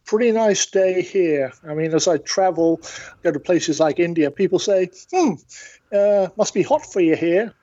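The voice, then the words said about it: British accent. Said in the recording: “I'm not a West Virginia native, as you can probably tell from the accent. ... I'm from the UK originally, but I've been in the States for 40 years.”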